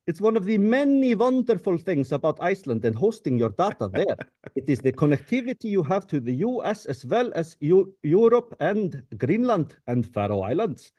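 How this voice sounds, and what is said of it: Put-on Icelandic tourism ad accent. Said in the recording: “I got to do the Icelandic Tourism Board wants me to take care of this ... got to do the accent.”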